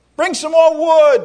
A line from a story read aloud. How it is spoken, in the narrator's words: the people cried out